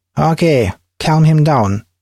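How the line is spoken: Loud. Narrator (Russian): Офицер громко сказал

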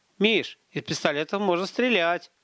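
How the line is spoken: Joyful announcement. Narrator (Russian): радостно объявил Гарин

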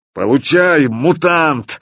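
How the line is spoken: Yelled. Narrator (Russian): заорал он

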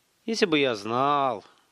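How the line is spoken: Sighing. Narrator (Russian): вздохнул Столяров

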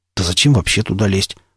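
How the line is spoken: Muttering. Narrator (Russian): пробормотал он

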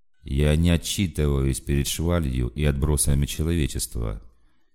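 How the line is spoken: Even-voiced announcement. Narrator (Russian): тем же ровным голосом объявил полковник

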